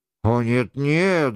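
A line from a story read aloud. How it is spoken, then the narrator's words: Embarrassed mumbling. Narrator (Russian): забормотал Лефлюаз, видимо, смущенный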